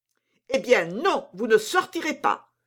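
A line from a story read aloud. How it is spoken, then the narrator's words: Exclaiming. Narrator (French): s'écria Montalais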